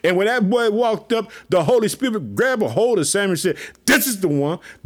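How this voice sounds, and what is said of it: Excited, pumped-up voice. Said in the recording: “I'm so pumped up. You know I'm pumped up. I know you hear it in my voice.”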